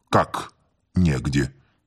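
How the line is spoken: Quiet. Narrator (Russian): сказал он негромко

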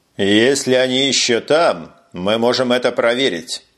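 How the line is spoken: Grim, amid approving murmur. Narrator (Russian): мрачно ответил Таргул под одобрительный гул офицеров

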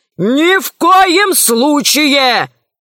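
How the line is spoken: Shout. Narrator (Russian): закричал Селезнев

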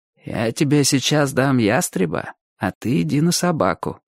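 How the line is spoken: Quiet. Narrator (Russian): тихо сказал охотник

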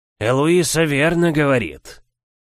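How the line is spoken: Gloomy old man muttering. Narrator (Russian): мрачно пробормотал старый Синтусамос

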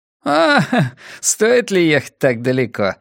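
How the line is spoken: Laughing. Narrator (Russian): засмеялся Моуди

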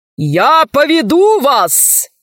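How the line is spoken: Thunderous shout. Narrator (Russian): закричал громовым голосом адмирал

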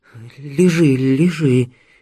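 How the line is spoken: Frightened. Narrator (Russian): испуганно проговорила мама

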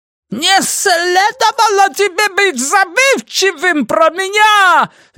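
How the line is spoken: Shrill squeal, Yoda-like. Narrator (Russian): визжал Ги, совсем как Йода

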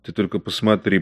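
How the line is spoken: Whisper. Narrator (Russian): прошептал Бергер

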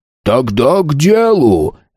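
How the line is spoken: Sharp bark. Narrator (Russian): рявкнул Рун

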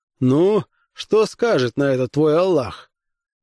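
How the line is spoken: Laughing question. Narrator (Russian): Рассмеявшись, он спросил меня

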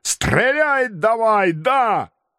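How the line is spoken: Sudden full-voiced yell. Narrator (Russian): вдруг заорал в полный голос

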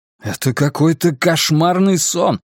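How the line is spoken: Exclaiming. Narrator (Russian): воскликнул Майкл

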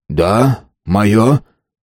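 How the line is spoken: Tense voice. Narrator (Russian): напряженным голосом ответил странный Нобель

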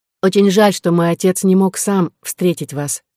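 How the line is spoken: Plain. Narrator (Russian): сказала она

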